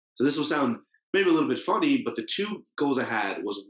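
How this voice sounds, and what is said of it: American accent. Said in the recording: “I'm more American than Jamaican, as you can also hear from my voice”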